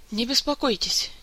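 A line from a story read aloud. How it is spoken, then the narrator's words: Quiet reply from corner. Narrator (Russian): негромко отозвался из своего укромного уголка хинский маг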